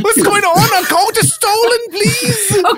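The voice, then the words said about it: German-accented English. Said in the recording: “They're speaking accented English ... I have a German accent”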